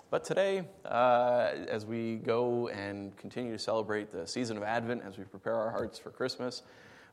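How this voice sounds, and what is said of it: Strained, fading voice. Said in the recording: “I'm starting to lose my voice,”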